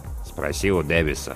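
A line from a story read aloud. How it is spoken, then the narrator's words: Grumbling. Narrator (Russian): буркнул помощник навигатора Сноу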